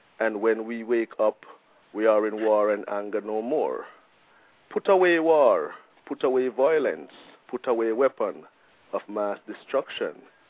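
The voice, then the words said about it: Jamaican accent. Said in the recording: “I'm guessing from your accent that you're not originally from Portland ... I'm a Jamaican.”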